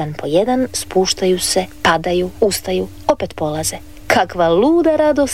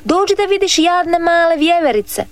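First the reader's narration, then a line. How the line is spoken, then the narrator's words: Shouting boy. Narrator (Croatian): viknu dječak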